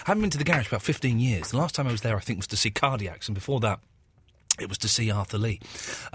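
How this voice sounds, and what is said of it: Slightly hoarse, sore-throat voice. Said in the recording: “I had a little chesty kind of infection, and the voice is always the first thing to go for me ... I've got a little bit of a sore throat ... my voice had gone. But it's sort of there.”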